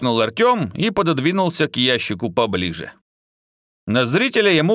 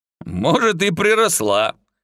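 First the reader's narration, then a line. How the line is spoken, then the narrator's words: Short laugh. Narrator (Russian): хохотнул Алукард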